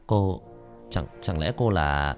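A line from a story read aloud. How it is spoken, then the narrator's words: Hesitant. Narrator (Vietnamese): Nó ngập ngừng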